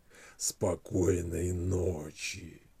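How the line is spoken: Hoarse growling whisper. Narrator (Russian): мама хриплым, рычащим голосом прошептала ему на ухо

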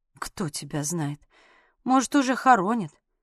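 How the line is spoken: Muttering. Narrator (Russian): пробормотала я

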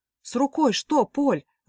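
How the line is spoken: Anxious question, father. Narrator (Russian): взволнованно спросил папа

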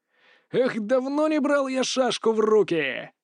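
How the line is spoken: Shouted aloud. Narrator (Russian): Кажется, даже вслух прокричал

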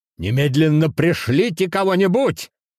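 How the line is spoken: Shout into phone. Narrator (Russian): выкрикнул он в трубку

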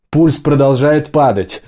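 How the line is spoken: Shouted. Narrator (Russian): выкрикнул кто-то из медиков

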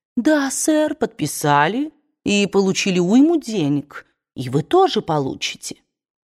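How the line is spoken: Honeyed voice. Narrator (Russian): А этот малый Хилтон медовым таким голосом и говорит

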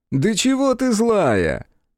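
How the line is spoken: Mocking laughter. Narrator (Russian): Издевательски расхохотался он

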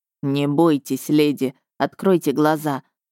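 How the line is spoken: Amused snort. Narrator (Russian): хмыкнул синеглазый мэр

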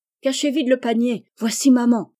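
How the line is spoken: Exclaimed. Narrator (French): s'écria Jo

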